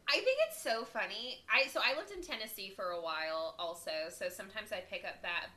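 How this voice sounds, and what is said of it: Southern American accent. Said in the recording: “I love your southern accent.”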